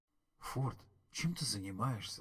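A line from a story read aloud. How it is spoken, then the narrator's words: Surprised whisper. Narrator (Russian): спросил он удивленным шепотом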